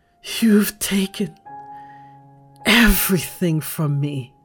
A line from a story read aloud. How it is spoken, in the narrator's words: Lissette screams